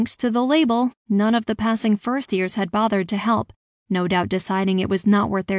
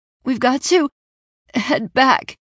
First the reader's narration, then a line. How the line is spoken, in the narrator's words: I coughed between huge gasps of air